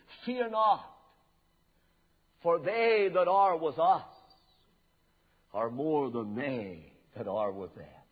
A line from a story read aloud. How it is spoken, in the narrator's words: Elisha, who was totally undisturbed about the enemy, calmly replied